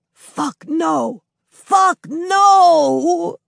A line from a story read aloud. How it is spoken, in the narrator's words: Douglas, shout-whispering